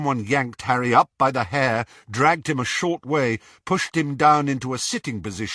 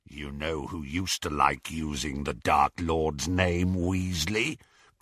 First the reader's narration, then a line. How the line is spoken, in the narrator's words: growled Greyback